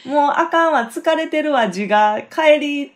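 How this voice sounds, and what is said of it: Quoted line in Kansai dialect. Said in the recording (Japanese): “関西弁でか。”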